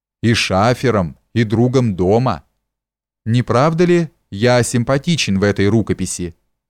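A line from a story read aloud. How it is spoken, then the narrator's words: Laughing. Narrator (Russian): засмеялся Камышев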